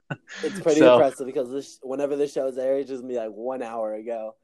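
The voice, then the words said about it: Tired, just-woke-up voice. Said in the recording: “why you sound tired ... sounds tired, it is because he woke up literally 1 hour ago”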